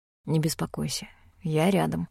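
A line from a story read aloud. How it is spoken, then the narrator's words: Quiet, reassuring. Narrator (Russian): тихо сказал Рейн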